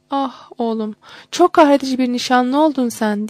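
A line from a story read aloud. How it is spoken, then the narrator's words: Crying out. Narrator (Turkish): diye haykırdı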